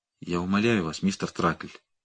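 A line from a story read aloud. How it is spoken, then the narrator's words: Barely audible. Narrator (Russian): проговорил он едва слышно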